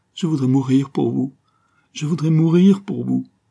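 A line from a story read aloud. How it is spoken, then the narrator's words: Sobbing. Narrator (French): sanglota-t-elle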